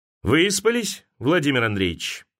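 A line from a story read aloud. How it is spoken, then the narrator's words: Cheerful question. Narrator (Russian): весело спросил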